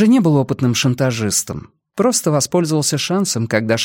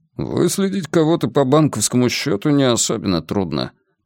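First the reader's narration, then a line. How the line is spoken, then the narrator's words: Grumbling mutter. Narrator (Russian): пробурчал Вернер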